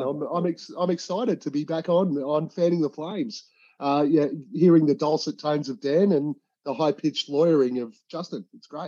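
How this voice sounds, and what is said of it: Australian accent. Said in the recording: “you'll recognize the accent because it's personally my favorite accent out there ... It's an Australian accent.”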